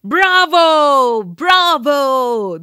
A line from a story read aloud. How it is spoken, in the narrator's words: the people shouted